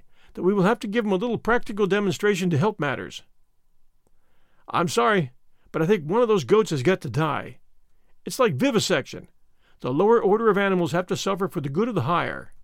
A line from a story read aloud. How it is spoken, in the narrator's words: said Stedman, with a sigh